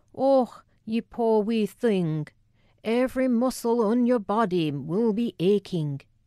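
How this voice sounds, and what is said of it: Thick Scottish accent. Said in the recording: “the incongruous thickness of her accent ... Scottish ... the accent ... thick-tongued tones”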